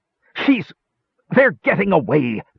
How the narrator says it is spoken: Pitrick's voice exploded in a shrill screech of outrage

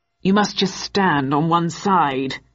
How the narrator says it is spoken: answered the rider in a gruff tone

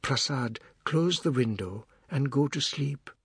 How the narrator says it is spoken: in the same gentle, unalarmed voice said

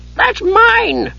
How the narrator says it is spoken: he shrieked

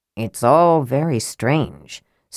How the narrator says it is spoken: Sturm muttered, frowning

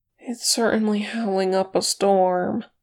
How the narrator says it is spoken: Sam said in a sleepy voice

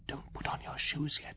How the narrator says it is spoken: whispered

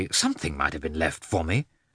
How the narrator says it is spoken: Lievin was so annoyed that he said crossly

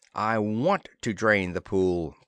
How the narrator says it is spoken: Planter said

